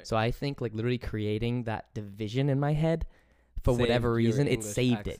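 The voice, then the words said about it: English accent. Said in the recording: “it actually allowed me to hold on to my English accent”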